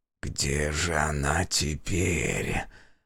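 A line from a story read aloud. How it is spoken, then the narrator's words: Muttered. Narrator (Russian): пробормотал маг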